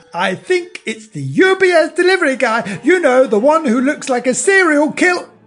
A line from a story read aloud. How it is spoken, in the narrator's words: yelled quite loudly